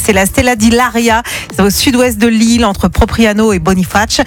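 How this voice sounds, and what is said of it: Put-on Corsican French accent. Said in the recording (French): “T'as vachement bossé l'accent corse.”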